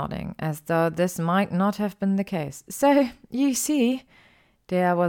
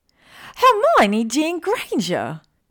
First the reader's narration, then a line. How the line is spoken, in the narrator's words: her friend shrieked